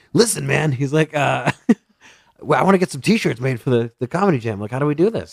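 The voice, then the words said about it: Imitates another person's voice. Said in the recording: “this is my impression of him”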